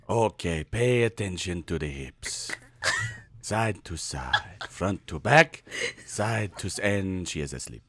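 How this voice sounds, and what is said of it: Spanish-accented hypnotist impression. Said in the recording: “your Spanish hypnotism impression”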